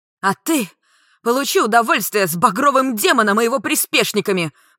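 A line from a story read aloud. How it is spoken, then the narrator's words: Shouting. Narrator (Russian): крикнула Клариса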